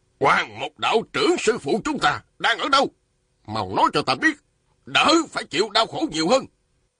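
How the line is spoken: Man shouting sternly. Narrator (Vietnamese): Một đạo nhân râu dài quát lên

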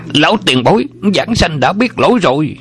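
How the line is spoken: Terrified cry. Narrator (Vietnamese): Xích Đại Thông bị chới với giữa khoảng không, kinh hoàng la lên

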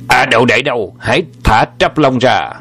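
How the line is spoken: Loud call. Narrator (Vietnamese): Âm Trường Hà bèn gọi lớn tiếng

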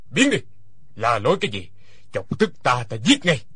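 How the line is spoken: Shouted. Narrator (Vietnamese): Hoa Thiết Cán quát lên

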